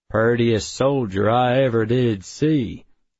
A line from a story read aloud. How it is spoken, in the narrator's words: I said, drawling out a terrible John Wayne impression